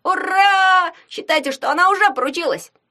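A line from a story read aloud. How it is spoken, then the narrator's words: Gleeful yell. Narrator (Russian): завопил Ягун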